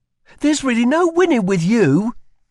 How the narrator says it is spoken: she snapped back

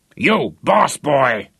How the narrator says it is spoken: he bellowed

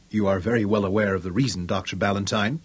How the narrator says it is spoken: Mungo answered her protests calmly

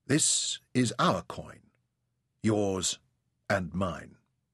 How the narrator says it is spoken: he studied the portraits gravely, then said

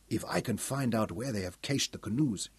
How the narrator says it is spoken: muttered

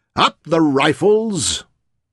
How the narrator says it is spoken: Leon laughed, bellowed back

